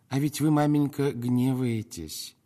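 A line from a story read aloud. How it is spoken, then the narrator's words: Sugary, fawning voice. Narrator (Russian): наконец произнес он таким умильным голосом, словно собирался у маменьки брюшко пощекотать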